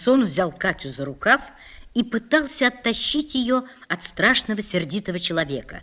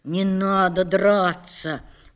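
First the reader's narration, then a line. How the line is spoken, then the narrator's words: Softly. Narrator (Russian): уже мягко сказал он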